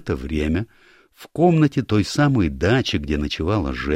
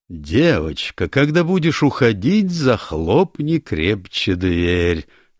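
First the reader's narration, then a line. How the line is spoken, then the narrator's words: Mocking old man reading. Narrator (Russian): насмешливо прочел старик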